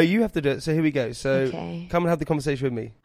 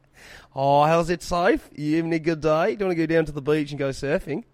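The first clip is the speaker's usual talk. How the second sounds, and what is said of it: Put-on Australian accent. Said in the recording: “Do an Australian accent. ... You do it then, you big Aussie. ... Mr. Australia.”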